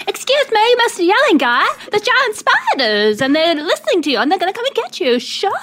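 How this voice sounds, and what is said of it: Put-on American accent. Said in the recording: “American.”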